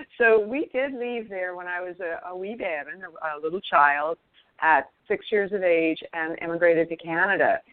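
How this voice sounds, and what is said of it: Scottish accent. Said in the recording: “I like the accent, by the way. I like the accent.”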